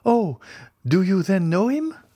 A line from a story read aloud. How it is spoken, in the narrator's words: cried Julie, whose eyes sparkled with joy